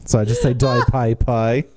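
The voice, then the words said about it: Put-on Australian accent. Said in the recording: “in Australian it's the Dai Pai Pai... that's pretty much all the Australian accent I can do”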